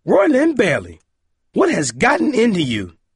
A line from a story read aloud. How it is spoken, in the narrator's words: she yelled